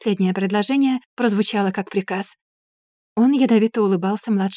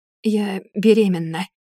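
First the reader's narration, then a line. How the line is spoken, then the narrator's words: Hoarse young woman. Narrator (Russian): хриплым голосом сказала девушка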